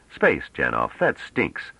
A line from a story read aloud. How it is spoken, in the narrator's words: Trevise said irritably